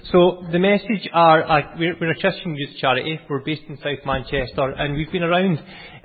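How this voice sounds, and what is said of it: Noticeable regional accent. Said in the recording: “I apologise for my accent, I will try and speak slow.”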